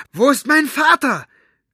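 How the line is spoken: Shouted. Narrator (German): schrie

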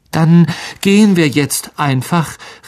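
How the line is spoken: Desperate call. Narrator (German): rief Harry verzweifelt Aragog zu

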